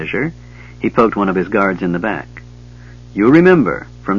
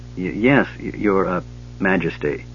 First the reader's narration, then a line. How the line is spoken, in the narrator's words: the Gully Dwarf stuttered